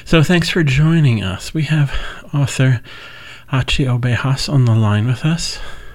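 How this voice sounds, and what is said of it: Voice sounding sick with a cold. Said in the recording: “I have a cold ... it sounds, vaguely sexy”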